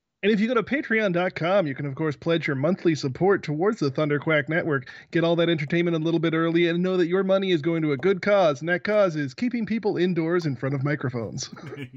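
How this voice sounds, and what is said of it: Smooth announcer voice. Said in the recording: “That was my smooth announcer voice.”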